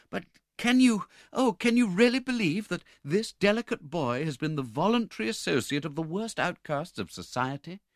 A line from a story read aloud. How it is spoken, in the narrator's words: said Rose anxiously